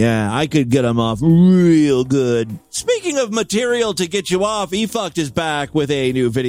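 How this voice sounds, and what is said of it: Usual voice. Nothing is said of it.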